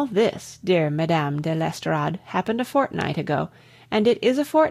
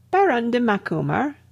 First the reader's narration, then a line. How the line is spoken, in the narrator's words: exclaimed